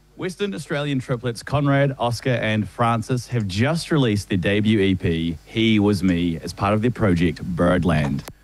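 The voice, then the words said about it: Southland New Zealand accent, rolled R's. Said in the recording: “the Southland New Zealand accent there. I roll my R's.”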